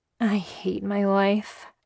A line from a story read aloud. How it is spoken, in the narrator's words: I muttered